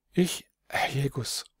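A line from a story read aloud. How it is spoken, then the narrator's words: Stammering boy. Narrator (German): stammelte der Bub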